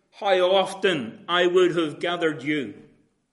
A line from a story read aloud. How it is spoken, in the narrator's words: he cried